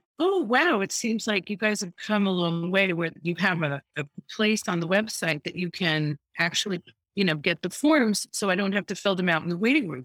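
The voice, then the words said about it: Exaggeratedly sweet, nice voice. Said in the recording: “in my nicest voice,”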